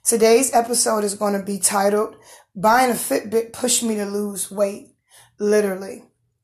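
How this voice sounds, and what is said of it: Hoarse voice from laryngitis. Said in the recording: “I've had laryngitis for a week or so. It's easing up”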